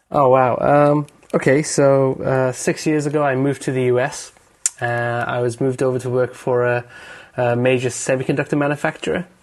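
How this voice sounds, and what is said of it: Non-local accent, not from Dallas. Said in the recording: “I can tell from your name and your accent that you're not from Dallas”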